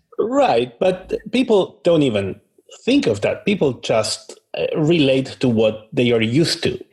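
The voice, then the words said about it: Speaks with a noticeable accent. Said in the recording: “my accent ... it's not a visible thing, but it's an audible thing”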